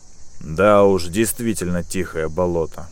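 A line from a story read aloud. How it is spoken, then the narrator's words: Snort with sigh. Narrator (Russian): хмыкнул капитан, вздохнув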